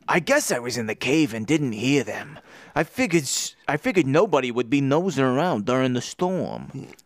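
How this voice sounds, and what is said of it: Character accent with rolled R's. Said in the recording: “Your accent work... It's so good and so diverse... It's subtle. It's nuanced... It's all about how I roll my R's.”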